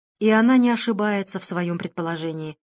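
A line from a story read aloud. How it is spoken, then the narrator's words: Lifeless tone. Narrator (Russian): ответила каким-то безжизненным тоном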